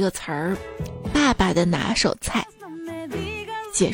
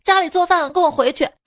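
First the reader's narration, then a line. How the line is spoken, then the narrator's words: Woman shouting. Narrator (Chinese): 一个女的，……喊道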